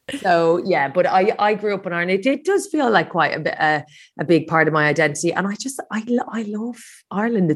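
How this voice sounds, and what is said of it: Irish accent. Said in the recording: “I am Irish, if you haven't guessed from my accent.”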